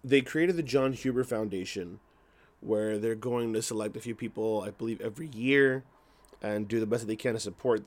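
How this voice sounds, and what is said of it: Hoarse, strained voice. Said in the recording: “my voice is a mess ... my voice is a little hoarse”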